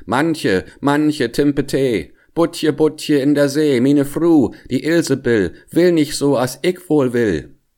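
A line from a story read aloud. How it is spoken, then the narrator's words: Calling out. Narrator (German): rief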